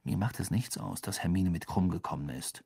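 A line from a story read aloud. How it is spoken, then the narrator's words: Quiet. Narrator (German): sagte Harry leise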